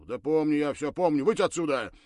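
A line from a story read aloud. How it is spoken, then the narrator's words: Irritated command. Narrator (Russian): раздраженным голосом приказал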